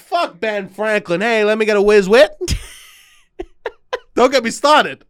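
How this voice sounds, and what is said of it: Put-on higher-pitched Philly accent. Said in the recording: “How come your Philly accent is just a little bit higher pitch? And a little bit more annoying.”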